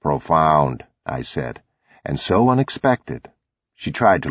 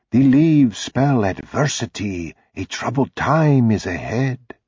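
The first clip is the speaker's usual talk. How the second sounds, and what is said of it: Put-on gypsy fortune-teller accent. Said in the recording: “Mother said in her best gypsy accent.”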